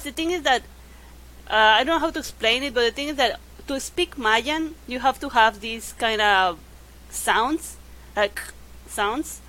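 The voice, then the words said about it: Yucatan Mexican accent in English. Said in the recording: “a specific accent that we have. I think it even kind of goes to my English. Like, I have that accent from the Mayan words.”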